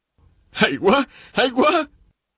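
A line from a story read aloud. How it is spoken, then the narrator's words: Exclaiming loudly. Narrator (Vietnamese): Tề Vân Ngạo ngẩng đầu dậy, la lên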